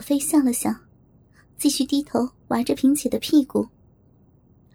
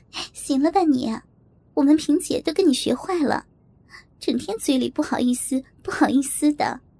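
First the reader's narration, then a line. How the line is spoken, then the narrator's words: Laughing, interrupting. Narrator (Chinese): 我笑着打断他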